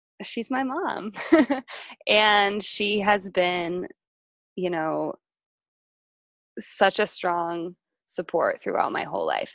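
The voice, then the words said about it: Emotional, choked-up voice. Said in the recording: “I'm gonna get a little emotional.”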